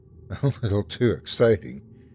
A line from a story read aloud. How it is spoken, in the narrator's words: Amy said with a laugh